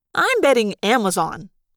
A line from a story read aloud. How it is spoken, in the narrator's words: Marco said brightly